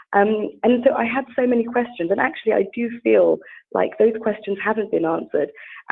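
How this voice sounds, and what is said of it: British accent. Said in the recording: “as you can hear from my accent. I mean, I'm very British”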